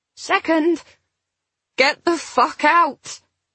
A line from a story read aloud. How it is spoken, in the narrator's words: she groaned